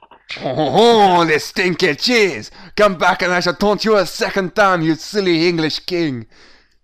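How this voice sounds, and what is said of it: Put-on French accent. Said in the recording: “you have to talk with a French accent, too.”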